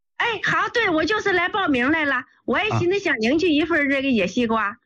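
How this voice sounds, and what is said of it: Northern Chinese, northeastern accent. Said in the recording (Chinese): “听您口音是北方的，东北的吧？”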